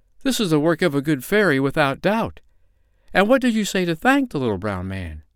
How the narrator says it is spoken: cried her mother in amazement

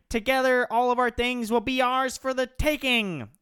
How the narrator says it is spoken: shouted Mark Zuckerberg with selfish evil

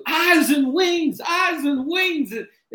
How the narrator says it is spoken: we start screaming too

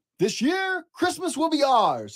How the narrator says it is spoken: shouted

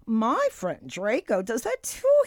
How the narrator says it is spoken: he giggled

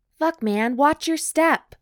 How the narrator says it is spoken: Noah shouts

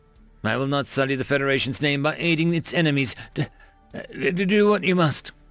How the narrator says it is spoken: Gorsh whimpered

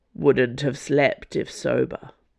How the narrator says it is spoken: Athos grumbled

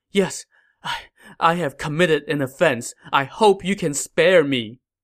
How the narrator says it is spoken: Kneeling on the ground, Cao Fang pleaded

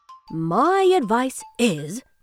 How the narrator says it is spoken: replied Professor Sage

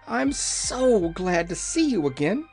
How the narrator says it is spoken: cried

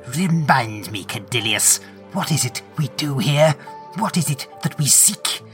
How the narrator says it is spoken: The Lord Inquisitor, barely able to suppress his rage, hisses

